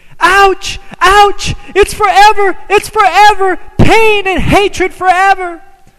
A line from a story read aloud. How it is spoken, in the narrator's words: people were screaming